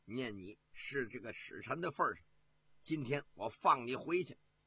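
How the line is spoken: Stern, harsh. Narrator (Chinese): 景延广 厉声地说

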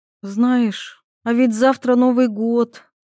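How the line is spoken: Sighing girl. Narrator (Russian): вновь вздохнула девушка

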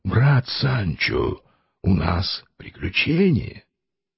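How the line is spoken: Quiet voice. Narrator (Russian): тихим голосом сказал ему

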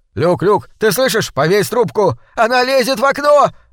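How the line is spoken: Terrified yelling. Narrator (Russian): орал обезумевший от страха Люк

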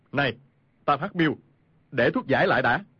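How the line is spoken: Shout. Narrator (Vietnamese): Khu Sử Cơ quát lên

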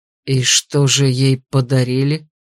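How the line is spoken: Gloomy question after silence. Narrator (Russian): После долгого молчания мрачно вопросил я

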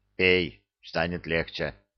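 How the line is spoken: Gruff mutter. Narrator (Russian): буркнул Горец

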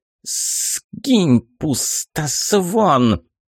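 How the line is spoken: Witch hissing. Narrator (Russian): прошипела баба-яга

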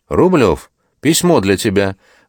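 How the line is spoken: Loud. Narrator (Russian): громко сказал Антонов

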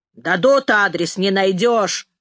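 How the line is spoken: Grumbling driver. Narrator (Russian): ворчал шофер

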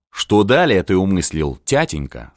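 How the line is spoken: Plain. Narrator (Russian): спросил сын

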